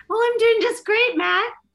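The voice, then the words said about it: Raised high-pitched voice. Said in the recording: “Do you feel better now that I came onto the show with that high voice?”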